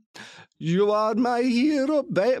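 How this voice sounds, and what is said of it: Imitates a singer's voice. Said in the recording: “my Enrique Iglesias impression”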